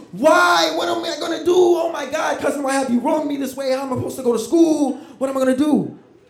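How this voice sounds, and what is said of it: Screaming, panicked shouting. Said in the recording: “I'm screaming everywhere”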